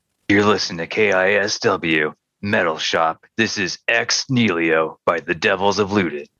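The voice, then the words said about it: Cheesy radio DJ voice. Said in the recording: “your cheesiest radio DJ impression.”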